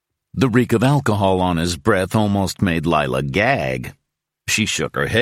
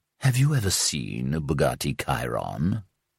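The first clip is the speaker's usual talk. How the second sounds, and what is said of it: Purring British accent. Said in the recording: “practically purring in his British accent”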